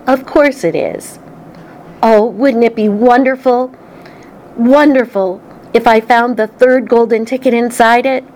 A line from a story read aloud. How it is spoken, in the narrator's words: Charlie said